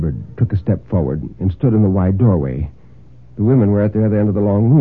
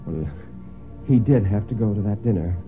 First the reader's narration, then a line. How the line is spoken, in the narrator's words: Mary said rather feebly, he thought